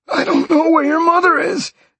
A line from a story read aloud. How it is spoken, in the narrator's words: the man gasped